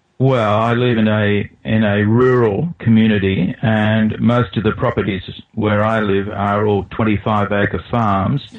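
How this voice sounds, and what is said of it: Australian accent. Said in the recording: “I'm from Australia, and I think that's probably quite self-evident from my accent”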